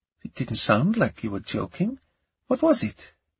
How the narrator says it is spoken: Her tone was light, playful, but there was a serious look in her eye

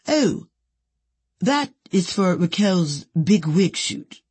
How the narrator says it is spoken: Petra answered in her deep Swiss voice

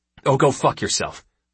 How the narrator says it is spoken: Hu snapped back

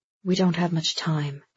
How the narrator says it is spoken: Andy's father whispered

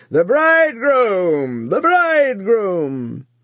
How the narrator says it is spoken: bawling loudly

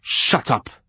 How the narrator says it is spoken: He spat the word savagely

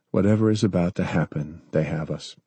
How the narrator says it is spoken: he sighed

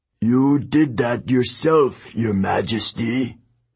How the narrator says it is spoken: the old man croaked

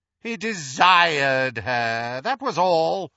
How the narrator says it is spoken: sneered Voldemort

